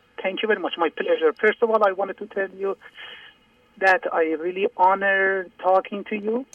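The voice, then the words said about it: Speaking very slowly. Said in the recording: “I'm talking very slow because I can't hear myself.”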